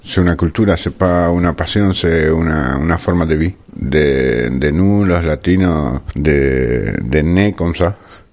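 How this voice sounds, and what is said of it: Latin American accent in French. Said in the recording (French): “son accent latino”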